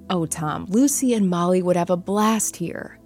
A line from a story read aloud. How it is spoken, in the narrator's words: Sophia said excitedly